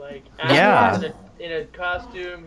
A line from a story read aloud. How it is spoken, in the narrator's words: he yells